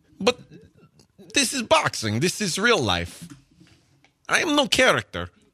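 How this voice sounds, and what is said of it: Kazakh accent imitating Triple G. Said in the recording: “my Triple G accent is pretty spot on ... pretty good ... They have a similar accent ... I was actually enjoying the accent”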